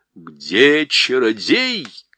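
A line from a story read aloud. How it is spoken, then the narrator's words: Queen shouting. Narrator (Russian): крикнула королева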